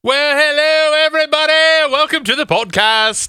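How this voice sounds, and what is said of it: Put-on British accent. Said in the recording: “I'm just speaking in a British accent”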